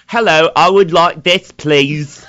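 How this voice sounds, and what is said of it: Badly done put-on accent. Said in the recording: “But like terrible. Like that wasn't even remotely good... I was actually just practicing an accent... you're terrible at it.”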